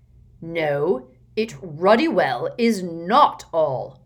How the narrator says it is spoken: bellowed Uncle Vernon

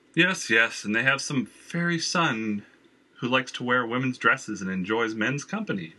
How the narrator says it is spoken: Valerie added, laughing

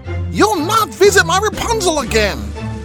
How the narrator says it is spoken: she shrieked

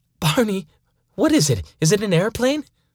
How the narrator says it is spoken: She nervously blurted out

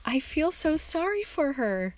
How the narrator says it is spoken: my daughter exclaimed

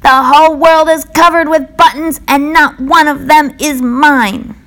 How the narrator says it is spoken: screamed

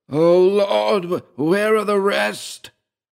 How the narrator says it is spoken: shrieked and shrieked, and between the screams he vomited a torrent of jumbled words

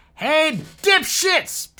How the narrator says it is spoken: shouted Michael

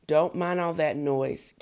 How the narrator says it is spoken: Cassie said

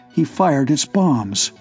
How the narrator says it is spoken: whispered Thurston in a shaking voice

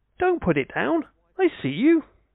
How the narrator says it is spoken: His wife called out to him

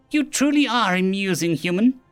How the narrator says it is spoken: Craid replied after laughing died away

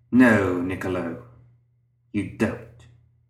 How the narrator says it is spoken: Lucius replied bitterly

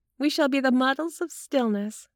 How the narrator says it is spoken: said Carla, laughing

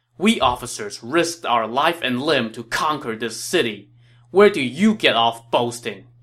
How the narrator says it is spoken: he said angrily

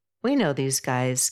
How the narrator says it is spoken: Camus laughs

